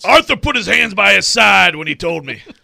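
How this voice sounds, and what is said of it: Poor impression of Mike Vrabel. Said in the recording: “That was a terrible Vrabel impersonation.”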